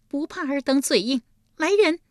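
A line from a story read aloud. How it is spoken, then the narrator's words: Cold sneer. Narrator (Chinese): 立即又是一声冷笑道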